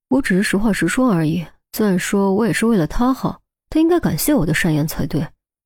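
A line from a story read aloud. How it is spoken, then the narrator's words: Low mutter. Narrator (Chinese): 低声嘟囔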